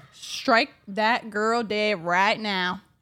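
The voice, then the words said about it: Exaggerated put-on accent. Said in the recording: “that was a crazy accent to back that up with ... what are you, a cousin fucker?”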